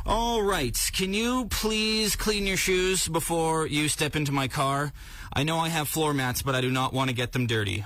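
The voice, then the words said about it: Imitates a fussy car owner. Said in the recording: “my impression of someone who just got the inside of their car detailed”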